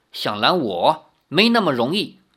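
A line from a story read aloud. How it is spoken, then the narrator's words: Cold. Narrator (Chinese): 那女子冷冷地说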